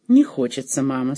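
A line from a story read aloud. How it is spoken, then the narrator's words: Dejected. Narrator (Russian): сказала она так уныло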